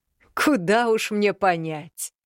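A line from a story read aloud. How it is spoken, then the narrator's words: Openly laughing. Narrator (Russian): Откровенно смеялся Мракьян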